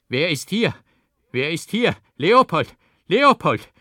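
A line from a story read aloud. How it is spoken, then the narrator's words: Startled old man shouting loudly. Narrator (German): fuhr der Alte wie vom Blitz getroffen zusammen und rief laut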